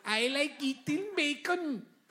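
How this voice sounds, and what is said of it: Put-on Scandinavian accent. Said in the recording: “do my Denmark accent now? ... No, that's Swedish. Swedish.”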